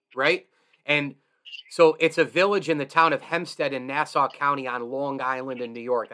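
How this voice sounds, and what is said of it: Put-on New York accent. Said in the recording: “That's the best, you know, New York accent I can give you”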